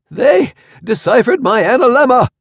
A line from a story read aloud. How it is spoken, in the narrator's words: exclaimed between gasps